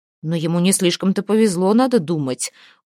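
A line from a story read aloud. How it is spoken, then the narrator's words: Contemptuous snort. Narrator (Russian): Ормкель презрительно хмыкнул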